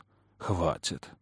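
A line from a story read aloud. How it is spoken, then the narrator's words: Grumble. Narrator (Russian): проворчал Кэллум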